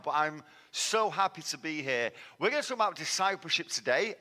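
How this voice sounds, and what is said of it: Manchester English accent. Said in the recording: “This is not a Texan accent, as you can tell. ... I'm from Manchester.”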